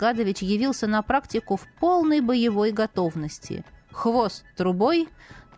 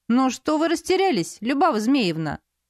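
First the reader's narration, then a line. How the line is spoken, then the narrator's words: Exclaiming. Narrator (Russian): воскликнул Полос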